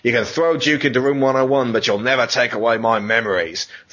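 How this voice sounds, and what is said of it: Put-on Australian accent. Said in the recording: “I'm supposed to read this in an Australian accent... That's an Australian accent.”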